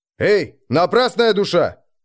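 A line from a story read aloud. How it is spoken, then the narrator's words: Barked, suppressing anger. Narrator (Russian): рявкнул Нойда, пытаясь успокоить в себе гнев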